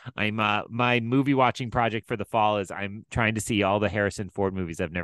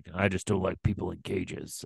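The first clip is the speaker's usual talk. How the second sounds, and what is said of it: Imitates another person's voice. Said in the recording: “that felt like a Harrison Ford line to me ... a little lopsided grin ... solid work on that accent”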